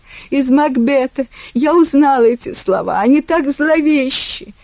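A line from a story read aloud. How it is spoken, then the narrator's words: Choked sobbing. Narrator (Russian): Гая скривила рот в сдавленных рыданиях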